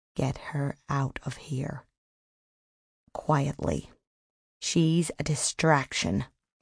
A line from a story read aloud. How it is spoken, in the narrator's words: He whispered in Hannah Denzel's ear